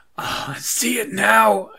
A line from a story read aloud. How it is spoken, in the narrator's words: I shrieked